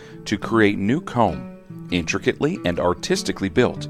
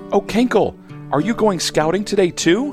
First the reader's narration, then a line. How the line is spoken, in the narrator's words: Hannah Bee buzzes excitedly